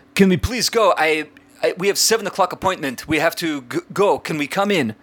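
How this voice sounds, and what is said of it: Imitated foreign accent, French-sounding. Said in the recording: “he's an immigrant of some sort because he's got this accent, and I'm not doing it accurately ... those immigrants that somehow speak like Inspector Clouseau from the Pink Panther”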